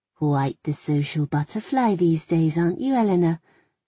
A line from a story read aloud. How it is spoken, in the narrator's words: She said, her voice unpleasantly sweet